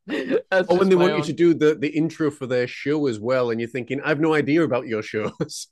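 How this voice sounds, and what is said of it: Slight Scottish accent. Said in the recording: “if you've heard the little bit of an accent, this Scottish artist”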